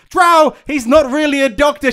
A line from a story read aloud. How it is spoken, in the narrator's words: she shouted